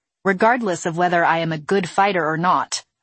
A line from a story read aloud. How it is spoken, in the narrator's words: I snapped